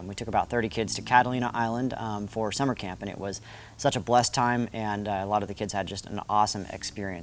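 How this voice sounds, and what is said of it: Slightly raspy voice. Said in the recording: “My voice is a little bit raspy because I've been yelling with a bunch of kids.”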